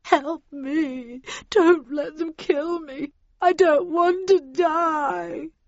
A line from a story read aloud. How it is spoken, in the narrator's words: heard Heathcliff whimper